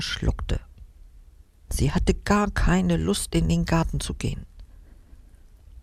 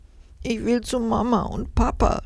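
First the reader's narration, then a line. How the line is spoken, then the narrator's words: Sobbing. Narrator (German): schluchzte sie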